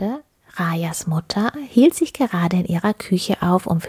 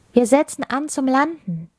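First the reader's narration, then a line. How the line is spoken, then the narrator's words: Queen calling out. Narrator (German): rief die Kristallkönigin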